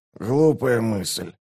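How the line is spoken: Hoarse rasp. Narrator (Russian): прохрипел Раллик

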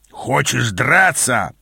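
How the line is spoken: Growl. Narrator (Russian): прорычал он

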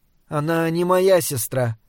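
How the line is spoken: Sad. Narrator (Russian): грустно сказала Мария

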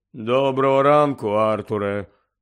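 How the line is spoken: Grave, somber greeting. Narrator (Ukrainian): Привітався за могильним голосом

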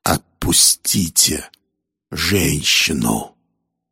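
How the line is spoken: Hissing. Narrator (Russian): прошипел он

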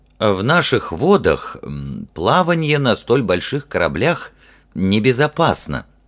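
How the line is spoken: Hesitant. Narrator (Russian): неуверенно начал Гартвик

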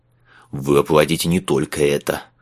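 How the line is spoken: Growl. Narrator (Russian): прорычал констебль

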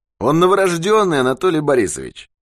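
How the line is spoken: Cheerful. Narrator (Russian): весело сказал Юрковский

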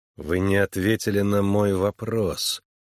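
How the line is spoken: Through gritted teeth. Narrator (Russian): процедил сквозь зубы Харлан

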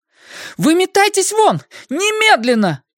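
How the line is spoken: Shouting. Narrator (Russian): кричала она

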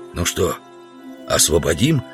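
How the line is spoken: Whispered question. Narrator (Russian): спросил шепотом Удалов у Грубина

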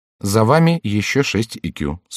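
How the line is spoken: Calm remark. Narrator (Russian): спокойно заметил Ламоль

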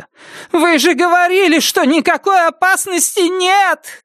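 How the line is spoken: Shouting. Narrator (Russian): кричала она

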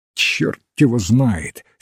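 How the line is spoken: Curt angry retort. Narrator (Russian): сердито бросил доктор

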